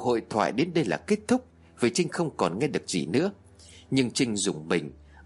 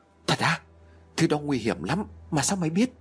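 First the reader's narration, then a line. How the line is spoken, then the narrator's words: Panicked voice. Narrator (Vietnamese): Phương liền nói bằng giọng hốt hoảng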